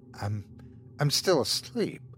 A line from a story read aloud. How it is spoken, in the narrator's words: muttered Thomas